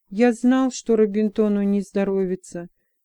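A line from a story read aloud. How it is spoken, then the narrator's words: Sad mumbling. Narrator (Russian): печально бормотал Джексон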